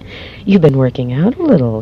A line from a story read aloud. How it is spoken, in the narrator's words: laughed